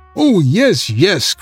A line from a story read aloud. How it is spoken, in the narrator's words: cried Cowslip